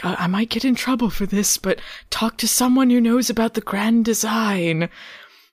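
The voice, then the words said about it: Soft-spoken vaguely British man's voice. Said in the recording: “my impression ... just soft spoken British man ... vaguely British ... He sounds vaguely British”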